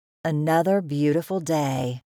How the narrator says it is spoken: called in a satisfied voice

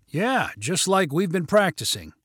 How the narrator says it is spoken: replied Skylar eagerly

